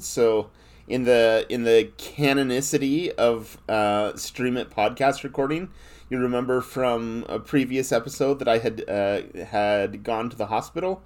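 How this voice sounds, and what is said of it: Voice sounds congested from a cold. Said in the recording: “The listeners can probably hear in my voice I got a little bit of a cold”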